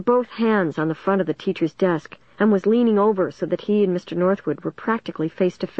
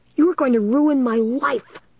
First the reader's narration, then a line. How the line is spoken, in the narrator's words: Dennis was screaming